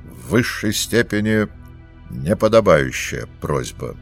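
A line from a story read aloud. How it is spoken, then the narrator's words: Cold. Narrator (Russian): холодно ответил полковник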